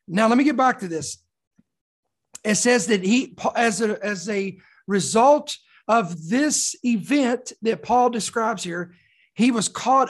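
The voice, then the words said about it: Slightly raspy, hoarse voice. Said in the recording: “you'll have to excuse my voice if it's a little bit raspy today ... sore throats and runny noses ... my voice sounds a little raspy today, more than usual”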